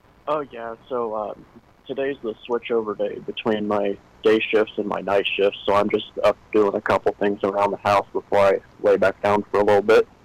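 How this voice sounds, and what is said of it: Tired-sounding voice. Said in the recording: “You sound a little tired this morning.”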